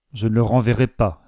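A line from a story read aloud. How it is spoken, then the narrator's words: Plain. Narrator (French): dit Mr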